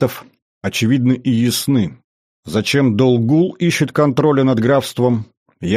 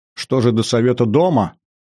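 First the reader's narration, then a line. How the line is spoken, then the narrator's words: Snorting question. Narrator (Russian): хмыкнул граф и спросил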